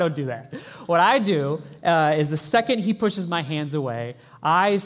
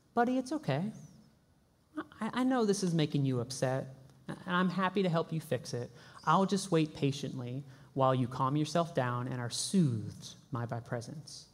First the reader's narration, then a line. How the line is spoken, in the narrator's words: As a good dad, I will calmly say